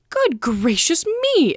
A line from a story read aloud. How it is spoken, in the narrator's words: exclaimed the colonel